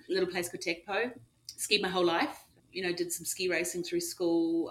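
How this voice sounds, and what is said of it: New Zealand accent. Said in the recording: “As folks can probably guess from your accent, you grew up in New Zealand.”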